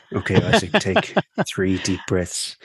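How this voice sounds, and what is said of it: Soft ASMR-style voice. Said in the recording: “I'll put my ASMR voice on”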